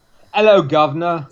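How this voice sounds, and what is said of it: Poor fake English accent. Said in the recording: “Is that the best you can do? ... I cannot do a bad English accent ... I have since been able to do a terrible fake one.”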